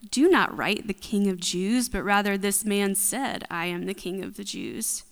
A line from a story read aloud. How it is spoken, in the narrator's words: Pilate answered